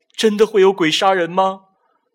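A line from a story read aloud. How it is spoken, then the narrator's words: Crying. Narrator (Chinese): 鲁思瑞的哭声传来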